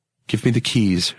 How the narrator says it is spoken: she said

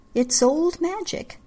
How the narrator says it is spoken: Misa said

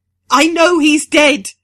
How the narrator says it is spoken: she screams

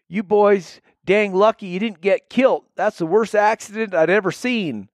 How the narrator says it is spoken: the driver would yell out the window

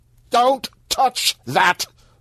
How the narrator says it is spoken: Vampire shouted

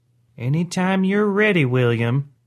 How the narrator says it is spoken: Grandma whispered

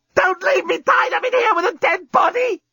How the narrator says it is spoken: screamed Lucy

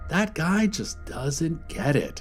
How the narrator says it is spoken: he said, shaking his head sadly

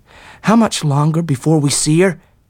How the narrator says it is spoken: asked Tom uneasily

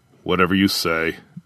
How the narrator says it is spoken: Jar muttered

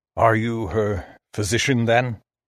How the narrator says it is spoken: His voice sounded strange, dry and old

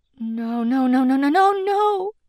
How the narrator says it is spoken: Dee stammered

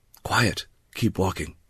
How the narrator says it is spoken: Beck whispered

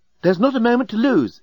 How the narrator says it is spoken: exclaimed the remarkably attractive and remarkably available female alien

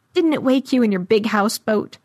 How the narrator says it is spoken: It laughed like it knew I'd end up squeezed among the untold deaths in its gut, and asked

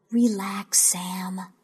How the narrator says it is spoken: I whispered

